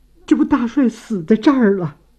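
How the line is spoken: Dazed, tearful woman. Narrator (Chinese): 太太哭得两眼通红，已经傻了，愣愣怔怔地说

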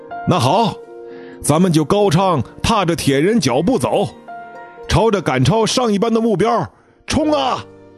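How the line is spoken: Shouting. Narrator (Chinese): 高翔接着又喊道

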